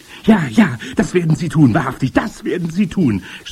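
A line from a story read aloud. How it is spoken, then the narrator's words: Shouted by female listeners. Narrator (German): schrien die Zuhörerinnen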